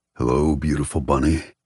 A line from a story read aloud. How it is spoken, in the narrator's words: he says in a throaty voice